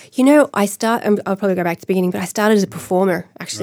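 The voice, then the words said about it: Hoarse voice. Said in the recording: “Apart from a bit of laryngitis, I'm great.”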